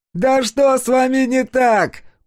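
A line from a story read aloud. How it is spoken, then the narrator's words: Shouting. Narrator (Russian): прокричал кто-то еще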